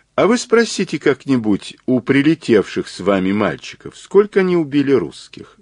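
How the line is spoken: Calm, unprovocative. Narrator (Russian): сказал Мазур, спокойно, ничуть не задираясь

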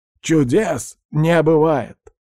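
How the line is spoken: Loud declaration. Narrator (Russian): громко заявил Фред

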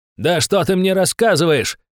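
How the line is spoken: Yelling. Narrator (Russian): орал

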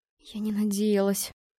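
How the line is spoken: Trembling whisper. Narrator (Russian): шептала я дрожащим голосом

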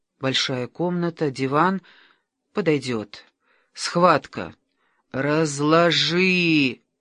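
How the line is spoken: Moaning. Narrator (Russian): Анна застонала

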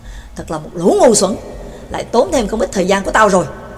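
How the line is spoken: Low mutter, young man. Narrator (Vietnamese): người trẻ tuổi thấp giọng lầm bầm

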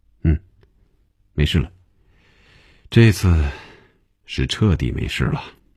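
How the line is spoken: Laughing sigh, nasal snort. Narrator (Chinese): 红军笑了，叹了口气，从鼻子里哼了一声说

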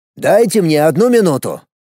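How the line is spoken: Sharp loud urgent. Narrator (Russian): резко и громко произнес Сергей, понимая, что с секунды на секунду может начаться бойня

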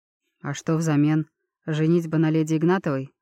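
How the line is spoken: Cold clarifying question. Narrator (Russian): холодно уточнил

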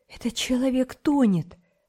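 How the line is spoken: Exclaiming. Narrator (Russian): воскликнула Наташа

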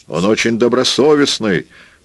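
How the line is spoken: Shouting. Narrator (Russian): прокричал Ансельмо

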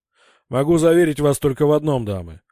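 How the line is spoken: Cheerful, smiling man. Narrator (Russian): бодро улыбнулся капитан, у которого … резко улучшилось настроение

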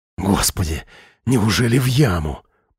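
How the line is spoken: Whisper. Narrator (Russian): прошептал Миша

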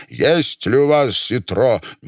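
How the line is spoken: Stern tense old man. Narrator (Russian): Усатый пенсионер, похожий на Ипполита Матвеевича Воробьянинова, напряженный, строго спросил

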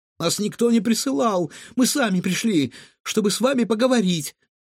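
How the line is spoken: Timid babble. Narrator (Russian): пролепетала Илона

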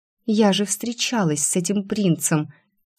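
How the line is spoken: Soft laugh. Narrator (Russian): Тихо рассмеялась

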